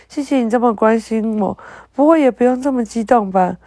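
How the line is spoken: Cheerful, giggling. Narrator (Chinese): 甜菜小溪笑嘻嘻的对着芦笋牙齿说

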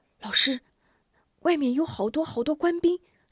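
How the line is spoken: Whispering. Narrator (Chinese): 悄声道

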